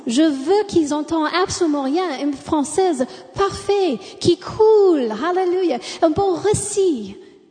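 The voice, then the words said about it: American accent speaking French. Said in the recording (French): “de ne pas avoir un accent américain. Je l'ai.”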